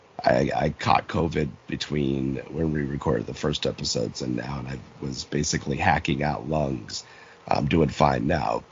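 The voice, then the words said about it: Hoarse, raspy low voice. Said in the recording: “wondering about my voice ... I'm recovering from COVID ... my voice has this Harvey Fierstein, Suzanne Plachette quality going to it right now”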